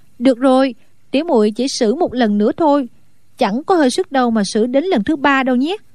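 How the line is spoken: Smiling. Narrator (Vietnamese): A Tú mỉm cười nói

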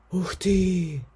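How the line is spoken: Breathed exclamation. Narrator (Russian): выдохнула Мик

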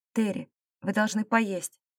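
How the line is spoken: Gentle. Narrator (Russian): мягко сказал

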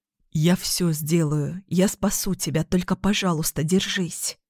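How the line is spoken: Whispered. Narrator (Russian): прошептал

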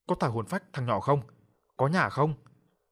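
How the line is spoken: Furious shouting. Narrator (Vietnamese): Mỗi một câu hét lên

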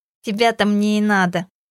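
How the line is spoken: Nasal voice. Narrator (Russian): гнусаво проговорил он

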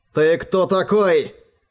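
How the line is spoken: Growled. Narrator (Russian): прорычал Роран

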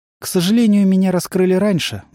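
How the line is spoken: Sighing. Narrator (Russian): вздохнул Меррил

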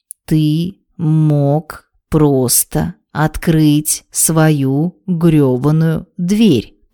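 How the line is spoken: Clipped, emphasizing each word. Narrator (Russian): процедила, выделяя каждое слово Вероника

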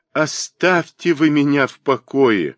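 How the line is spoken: Pained sigh, young woman. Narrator (Russian): болезненно вздохнула девушка

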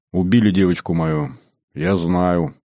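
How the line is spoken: Almost calm. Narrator (Russian): почти спокойно сказала она

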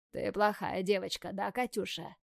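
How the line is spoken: Hoarse, catching breath. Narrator (Russian): хрипит он, переводя дыхание

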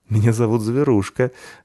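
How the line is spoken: Laughing, unsurprised. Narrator (Russian): рассмеялась та, ничуть не удивившись

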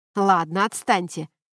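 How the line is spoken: Sharp shout. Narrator (Russian): прикрикнул Трентон

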